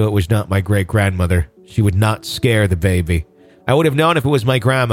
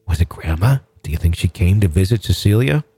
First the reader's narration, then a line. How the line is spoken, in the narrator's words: She continued in a hushed whisper